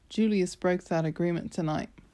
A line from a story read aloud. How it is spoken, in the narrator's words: Amos said